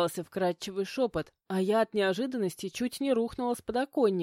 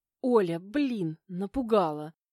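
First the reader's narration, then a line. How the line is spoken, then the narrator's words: Indignant hiss. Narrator (Russian): зашипела я возмущенно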